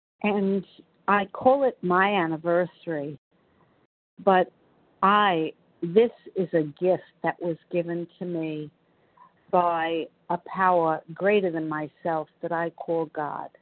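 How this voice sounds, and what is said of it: New York accent. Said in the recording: “I'm from New York, as you probably can tell by my New York accent”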